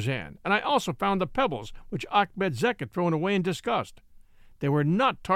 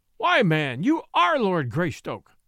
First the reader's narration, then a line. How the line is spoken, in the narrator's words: cried the Belgian